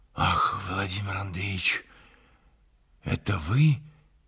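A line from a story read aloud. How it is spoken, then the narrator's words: Whispered answer. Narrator (Russian): отвечал Архип по шепту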